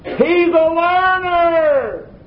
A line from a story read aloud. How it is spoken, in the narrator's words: he shouted it again